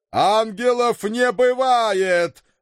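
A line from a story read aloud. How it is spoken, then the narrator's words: Father yelling loudly. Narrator (Russian): в голос заорал папочка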